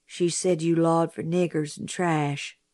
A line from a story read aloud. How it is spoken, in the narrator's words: Jim said softly